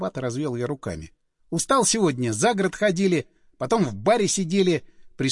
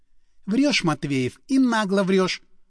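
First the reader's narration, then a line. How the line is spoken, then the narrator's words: Sighed. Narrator (Russian): вздохнула однокурсница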